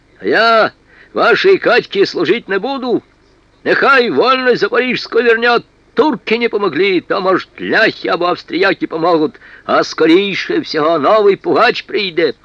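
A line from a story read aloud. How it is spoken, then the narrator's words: Furious firm shout. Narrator (Russian): яростно и твердо крикнул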